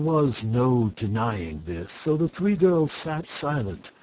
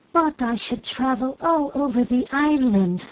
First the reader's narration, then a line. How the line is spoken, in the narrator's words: said the fairy brightly